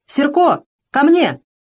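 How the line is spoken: Desperate shout. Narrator (Russian): Поняв, что одному не спастись, Фомка крикнул

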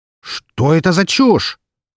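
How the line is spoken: Angry exclamation. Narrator (Russian): зло воскликнул сидящий за столом справа от меня мужчина, который, судя по всему, и являлся директором компании

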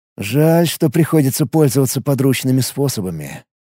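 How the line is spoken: Muttering. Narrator (Russian): пробормотал он

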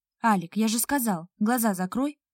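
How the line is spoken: Reproachful growl. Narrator (Russian): укоризненно рыкнул он

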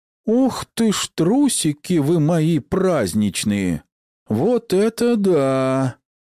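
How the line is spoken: Shocked drawl. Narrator (Russian): Шокированно протянул глаз

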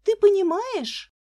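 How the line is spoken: Agitated speech. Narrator (Russian): взволнованно говорила Лиза мужу

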